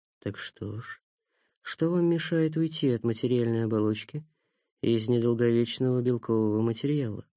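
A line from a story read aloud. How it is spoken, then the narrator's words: Very quiet. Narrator (Russian): проговорил совсем тихо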